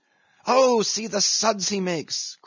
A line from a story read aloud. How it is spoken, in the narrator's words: cried, dancing up and down